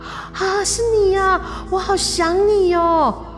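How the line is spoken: Happy shout. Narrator (Chinese): 小倩居然开心的大叫

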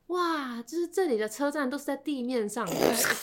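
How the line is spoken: Marveling tone. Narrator (Chinese): 他就很感叹跟我说

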